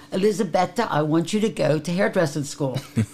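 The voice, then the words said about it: Put-on Italian accent. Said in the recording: “this is how I used to talk, Italian accent”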